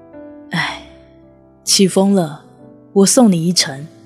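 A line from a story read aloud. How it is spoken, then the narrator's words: Soft sigh. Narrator (Chinese): 只是轻轻一叹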